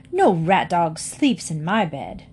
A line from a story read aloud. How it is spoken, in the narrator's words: said bitterly